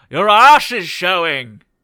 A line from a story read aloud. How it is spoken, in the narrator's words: I shout down and say